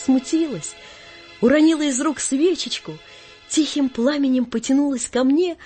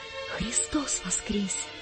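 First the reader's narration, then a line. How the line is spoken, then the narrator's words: Flustered shy whisper. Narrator (Russian): Сам не свой … весь зардевшись … я прошептал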